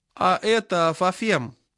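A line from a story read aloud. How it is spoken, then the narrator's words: Plain question. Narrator (Russian): спросил он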